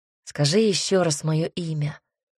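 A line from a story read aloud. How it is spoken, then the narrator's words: Timid quiet request. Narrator (Russian): попросил он, хотя сам в душе боялся, что она поднимет насмех его желание, поэтому попросил тихо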